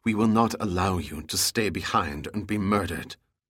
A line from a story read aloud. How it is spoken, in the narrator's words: Then, in a whisper to Giordino, she said